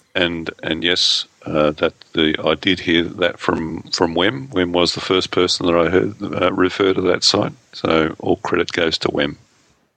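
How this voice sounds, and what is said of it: Australian accent. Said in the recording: “my wonderful Australian accent”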